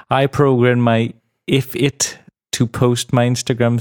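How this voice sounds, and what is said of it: Usual voice. Nothing is said of it.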